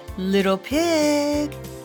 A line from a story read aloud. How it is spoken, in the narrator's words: he called sweetly